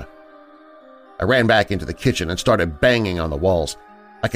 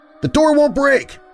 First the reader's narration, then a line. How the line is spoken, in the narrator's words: let out a frustrated yell